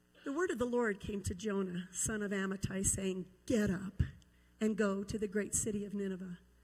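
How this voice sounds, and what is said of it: Rough, unsteady voice from illness. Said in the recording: “I'm just recovering from the creeping crud that's been going around, so my voice is kind of iffy”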